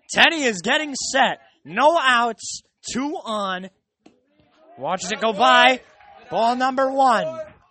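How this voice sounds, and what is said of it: Strained, nearly lost voice. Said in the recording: “I'm almost losing my voice here.”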